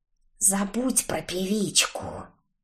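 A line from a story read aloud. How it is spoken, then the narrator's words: Through gritted teeth. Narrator (Russian): процедила Стаффи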